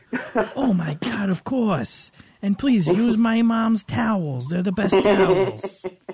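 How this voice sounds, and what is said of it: Over-the-top New Jersey accent. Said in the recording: “your impression of the New Jersey jerk-off... that accent... mine is like really over the top... more of like a New York-y Manhattan, but I just think it's New Jersey”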